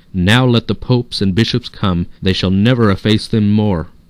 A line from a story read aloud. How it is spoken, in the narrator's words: the painters, who were surrounded by an immense crowd, exclaimed